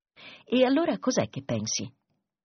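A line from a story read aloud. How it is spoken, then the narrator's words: Sighing. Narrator (Italian): Tommy sospirò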